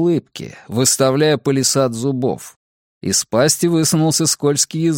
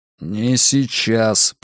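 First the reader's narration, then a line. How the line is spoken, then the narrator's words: Through gritted teeth. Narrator (Russian): процедил он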